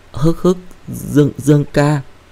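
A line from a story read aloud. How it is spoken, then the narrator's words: Choked sobbing call. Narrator (Vietnamese): nghẹn ngào gọi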